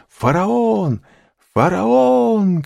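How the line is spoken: Crowd shouting together. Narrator (Russian): кричали все

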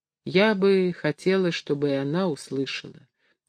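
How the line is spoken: Quiet. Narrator (Russian): тихо сказала Дарья

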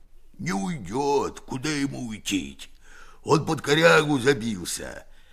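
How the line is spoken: Hoarse, muffled deep bass. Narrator (Russian): говорит Герасим охрипшим глухим басом, идущим не из гортани, а из глубины живота

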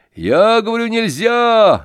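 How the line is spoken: Shouting again. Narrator (Russian): закричал опять Назаров

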